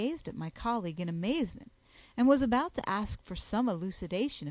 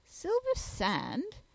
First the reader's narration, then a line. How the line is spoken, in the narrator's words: exclaimed the coroner